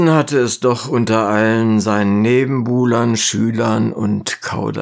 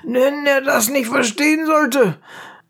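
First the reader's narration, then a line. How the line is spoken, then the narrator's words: Calling out. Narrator (German): rief ein anderer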